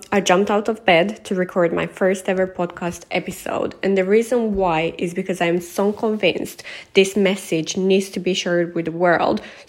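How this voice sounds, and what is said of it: Tired, sleepless-sounding voice. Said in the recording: “The reason why my voice sounds like this is because I literally cannot sleep.”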